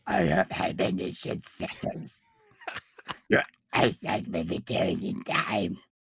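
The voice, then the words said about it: Disguised alien character voice impression. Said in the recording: “sounds somewhat similar to Leia's Bausch disguise from Return of the Jedi ... That was a good impression too, by the way ... how much I tanked my blank impression ... do the show in the Bush voice”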